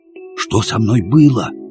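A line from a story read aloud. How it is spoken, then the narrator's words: Whispered question. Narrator (Russian): шепотом спросил я соседку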